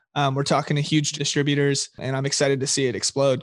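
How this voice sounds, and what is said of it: Rough, strained voice. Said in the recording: “my voice is kind of messed up... I was kind of screaming like Happy New Year. So that's kind of like what my voice sounds like it right now.”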